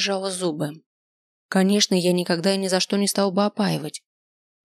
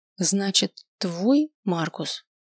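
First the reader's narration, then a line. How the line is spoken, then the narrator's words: Quiet. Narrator (Russian): тихо произнесла я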